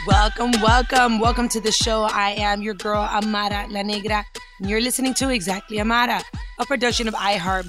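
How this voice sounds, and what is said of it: Strained voice cutting in and out. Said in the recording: “my voice keeps coming in and out”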